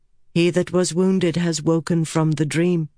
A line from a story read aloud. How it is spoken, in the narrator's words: Avienda said evenly